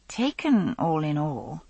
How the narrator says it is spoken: I said, feeling faintly apologetic

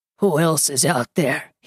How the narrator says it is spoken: rasps, his breaths coming hard

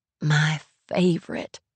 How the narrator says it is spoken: she whispers

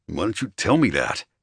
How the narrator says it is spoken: he snarled

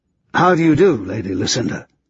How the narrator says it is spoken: he murmured

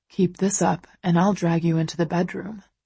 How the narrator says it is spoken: he murmurs

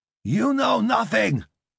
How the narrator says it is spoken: Lee shouted at the TV in Cantonese

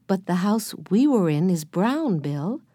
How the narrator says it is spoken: Jesse told him kindly

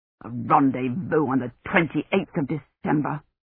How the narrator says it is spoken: Dunworthy said bitterly

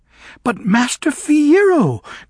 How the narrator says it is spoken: cried Glinda

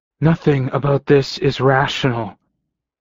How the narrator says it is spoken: and my voice was rough

